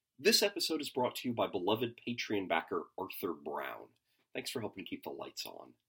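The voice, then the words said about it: Sick-sounding voice. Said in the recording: “I apologize for my voice. I'm a bit under the weather this week.”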